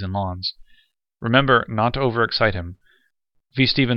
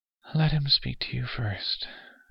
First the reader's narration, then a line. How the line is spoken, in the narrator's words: she said faintly